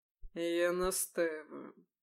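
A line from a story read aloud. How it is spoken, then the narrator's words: Low, muffled voice. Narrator (Russian): глухо проговорил Ликон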